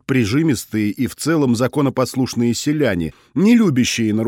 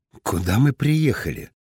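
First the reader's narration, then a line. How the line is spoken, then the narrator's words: Quiet question. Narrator (Russian): негромко спросил Шульц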